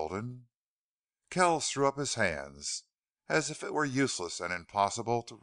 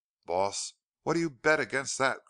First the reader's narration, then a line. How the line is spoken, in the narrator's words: cried Cleve, with exulting laugh